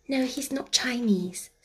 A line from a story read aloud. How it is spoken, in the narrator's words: Sarah whispered back